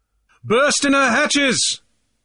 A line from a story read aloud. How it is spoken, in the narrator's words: was the bellowed answer